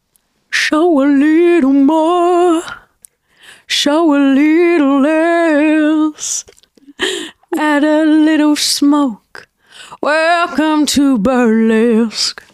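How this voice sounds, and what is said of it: Sung impression of a singer. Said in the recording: “A little sing ... If you're going to sing, you should sing right up ... Cher impression ... your Cher impression”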